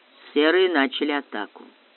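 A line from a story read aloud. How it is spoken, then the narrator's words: Calm. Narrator (Russian): спокойно сказал Баренц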